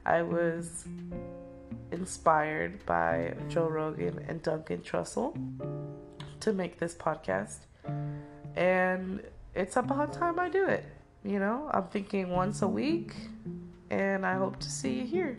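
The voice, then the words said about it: Congested, sick-sounding voice. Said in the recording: “excuse my voice. I am a bit sick at the moment ... just a stuffy nose and a funny feeling throat ... I promise my voice will not always sound like this”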